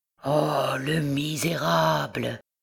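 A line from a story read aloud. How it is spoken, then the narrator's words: Low muffled murmur. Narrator (French): murmura-t-il sourdement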